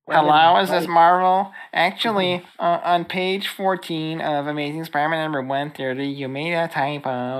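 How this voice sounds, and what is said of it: Impression of a nitpicking commenter. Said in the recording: “my impression of internet comments”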